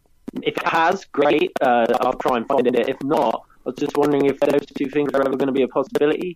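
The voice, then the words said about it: Noticeable regional accent. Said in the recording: “Love the accent. God, your mic was popping.”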